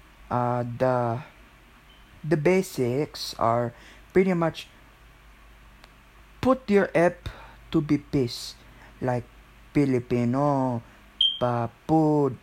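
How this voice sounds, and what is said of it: Put-on Filipino accent. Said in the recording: “I'm doing Filipino accent”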